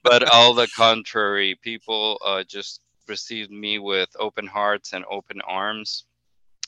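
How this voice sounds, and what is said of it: Hispanic accent in English. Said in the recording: “I'm the only Hispanic here... whenever they hear that I have an accent”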